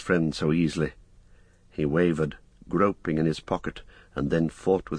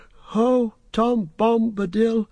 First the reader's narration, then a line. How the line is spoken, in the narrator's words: with that name his voice seemed to grow strong